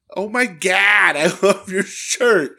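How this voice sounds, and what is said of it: Mocking Sandusky, Ohio accent. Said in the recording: “in her annoying fucking Sandusky, Ohio accent”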